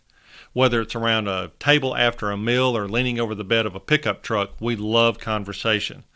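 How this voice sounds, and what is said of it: Slight Southern US accent. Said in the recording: “I have a slight accent, and yes, I'm from the South ... born and raised in northern Alabama”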